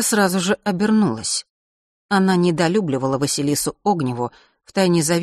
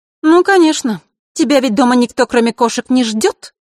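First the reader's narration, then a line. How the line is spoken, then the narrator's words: Angry curt retort. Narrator (Russian): зло бросила Инга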